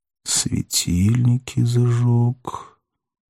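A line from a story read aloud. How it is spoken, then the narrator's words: Through gritted teeth. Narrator (Russian): сквозь зубы в тон арестант проговорил Пилат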